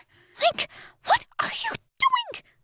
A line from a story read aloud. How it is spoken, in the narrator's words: She whispered urgently